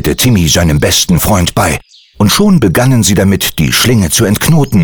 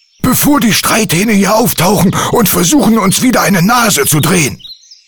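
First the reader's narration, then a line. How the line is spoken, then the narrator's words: Called out. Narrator (German): rief Andi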